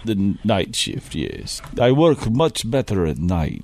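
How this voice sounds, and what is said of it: Unusual put-on foreign accent. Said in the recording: “that's a pretty interesting accent you have”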